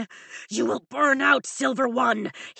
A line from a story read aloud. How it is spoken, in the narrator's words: he growls